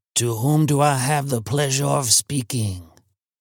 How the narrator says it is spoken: queried he in the rasping accent of a white Creole

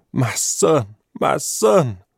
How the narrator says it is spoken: crying brokenly

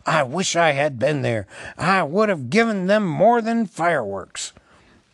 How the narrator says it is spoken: Gandalf muttered

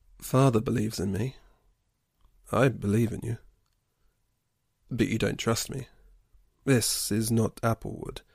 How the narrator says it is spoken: he sighed

